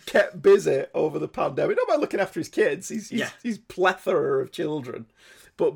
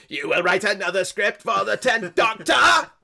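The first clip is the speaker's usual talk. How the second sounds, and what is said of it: Dalek character voice. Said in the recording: “he does the voice of the Dalek”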